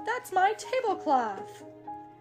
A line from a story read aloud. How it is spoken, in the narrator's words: Rabbit yelled